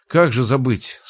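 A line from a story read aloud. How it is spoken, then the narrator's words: Sleepy mumble on phone. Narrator (Russian): сонно пробормотал я в телефон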